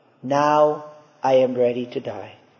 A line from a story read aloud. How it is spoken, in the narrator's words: he murmured with touching humility and piety